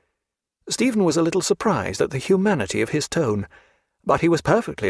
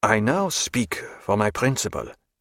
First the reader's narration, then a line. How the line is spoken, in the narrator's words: said Duhamel in a low voice